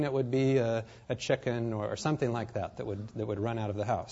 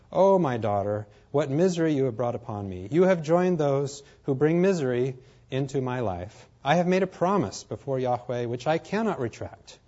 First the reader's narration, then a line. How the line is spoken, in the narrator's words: he tore his clothes and exclaimed